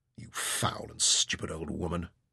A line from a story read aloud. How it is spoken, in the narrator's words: Ryder muttered in frustration and despair